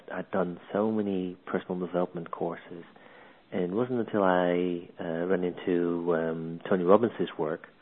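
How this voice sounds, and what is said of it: Dutch accent. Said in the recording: “As you might hear from my accent, originally from the Netherlands”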